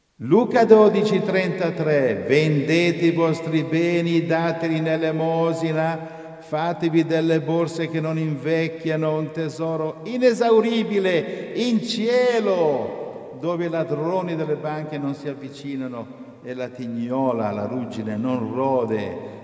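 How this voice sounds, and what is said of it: Solemn biblical reading voice. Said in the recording (Italian): “me lo fai leggere a me con la voce biblica?”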